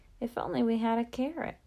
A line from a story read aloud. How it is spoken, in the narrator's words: paused and sighed